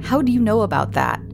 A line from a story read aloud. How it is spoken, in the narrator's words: He looked amused at first, laughing at me, asking